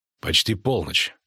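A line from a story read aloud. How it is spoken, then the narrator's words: Cold. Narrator (Russian): холодно сказал Геральт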